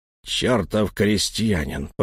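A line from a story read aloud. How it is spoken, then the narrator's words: Through gritted teeth. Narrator (Russian): процедил Лаум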